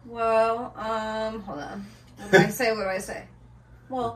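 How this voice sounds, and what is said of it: Usual voice. Nothing is said of it.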